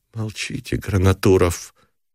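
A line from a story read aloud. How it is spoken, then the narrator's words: Weary plea. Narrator (Russian): устало попросила Галя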